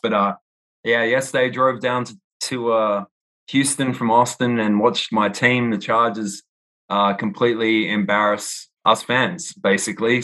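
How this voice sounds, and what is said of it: Noticeable foreign accent. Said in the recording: “obviously you have an accent”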